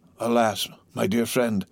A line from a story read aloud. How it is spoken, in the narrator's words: said Faria, in a resigned tone